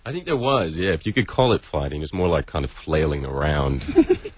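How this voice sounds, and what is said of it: Mixed Australian-New York accent. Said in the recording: “as you can hear from the voice... You'd be kicked out of Melbourne for an accent like that... New York, isn't it?... born in Sydney, bred right. in New York.”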